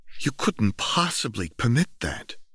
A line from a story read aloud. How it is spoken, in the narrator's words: she exclaimed